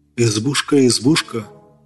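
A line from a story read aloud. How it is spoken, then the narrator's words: Near-whispered request. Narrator (Russian): Чуть ли не шепотом попросил Зверев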